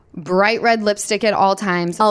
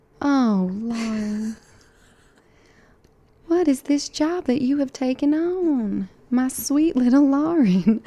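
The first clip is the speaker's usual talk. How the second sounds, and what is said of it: Put-on Southern belle Georgia accent. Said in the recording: “Southern Belle Georgia accent ... That was okay. Good. That's like old South accent.”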